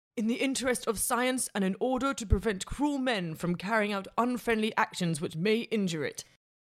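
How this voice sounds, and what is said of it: Bad put-on accent. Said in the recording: “Not as cruel as that accent ... It was pretty bad.”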